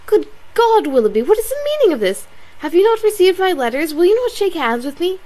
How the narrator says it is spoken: Her face was crimsoned over, and she exclaimed in a voice of the greatest emotion

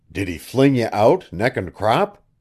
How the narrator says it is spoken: he gasped at last

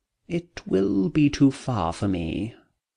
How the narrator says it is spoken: murmured her cousin

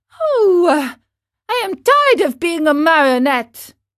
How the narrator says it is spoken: cried Pinocchio disgustedly

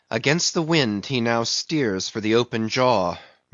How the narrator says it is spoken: murmured Starbuck to himself

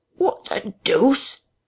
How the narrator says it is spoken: exclaimed Henfrey, sotto voce

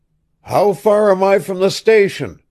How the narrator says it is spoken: he shouted

